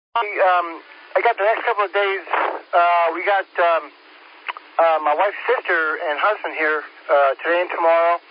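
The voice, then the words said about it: Distinct Long Island accent. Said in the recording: “You got a distinct voice with that Long Island drawl on it.”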